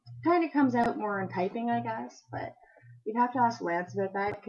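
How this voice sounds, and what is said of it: Canadian accent. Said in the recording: “my own soundbite of my Canadian accent ... I hope you enjoy my Canadian accent”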